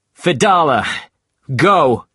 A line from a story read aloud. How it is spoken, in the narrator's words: Captain Ahab shouted to this man